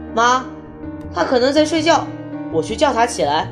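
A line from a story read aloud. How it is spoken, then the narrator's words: Shouting. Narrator (Chinese): 他对着厨房喊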